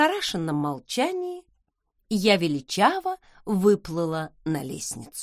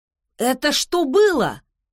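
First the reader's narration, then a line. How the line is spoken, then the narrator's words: Astonished exclamation. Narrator (Russian): воскликнул Бранч, наконец обнаружив в себе потерянный от изумления голос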